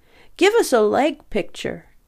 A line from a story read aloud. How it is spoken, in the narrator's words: One of the blasé New York photographers called out